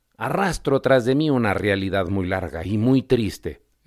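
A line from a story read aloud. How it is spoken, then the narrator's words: Mouse exclaiming with sigh. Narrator (Spanish): exclamó el ratón dejando escapar un suspiro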